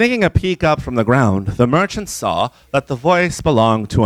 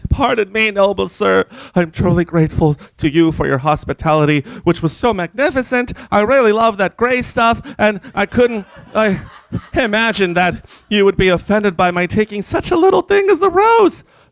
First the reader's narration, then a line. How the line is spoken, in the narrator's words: The merchant, terrified by these words, cried